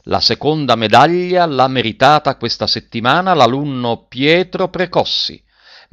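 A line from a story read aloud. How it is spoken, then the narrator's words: Superintendent speaking loudly. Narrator (Italian): Il sovrintendente disse a voce alta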